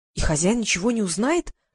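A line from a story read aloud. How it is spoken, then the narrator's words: Whispered question. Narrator (Russian): прошептала я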